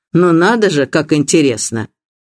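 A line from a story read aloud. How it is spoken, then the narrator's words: Haughty tone. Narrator (Russian): Мистер Блейк надменным тоном ответил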